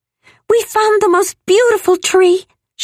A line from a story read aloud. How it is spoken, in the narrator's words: she said excitedly